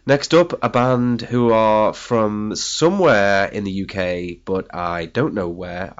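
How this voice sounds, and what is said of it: Ill, rough-sounding voice. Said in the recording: “I have stage 5 man flu ... I'm in pretty bad shape ... my voice sounds even more ghastly than it normally does”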